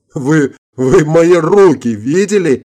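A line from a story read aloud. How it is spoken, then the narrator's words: Giggling question. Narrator (Russian): Не переставая хихикать, спросил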